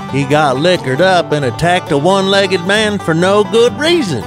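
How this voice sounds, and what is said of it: Put-on hillbilly accent. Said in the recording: “Hillbilly Accent News”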